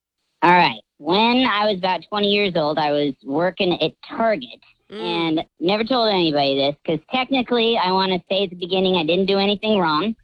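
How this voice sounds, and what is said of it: Voice altered by voice changer. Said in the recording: “voice changer on”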